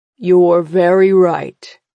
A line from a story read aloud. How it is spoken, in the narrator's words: Father says, his voice a deep rumble